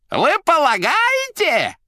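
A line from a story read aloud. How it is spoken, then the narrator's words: Yelled. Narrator (Russian): заорал Фагот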